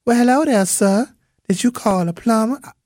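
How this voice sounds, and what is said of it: Light Southern US accent. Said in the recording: “she had a light southern accent.”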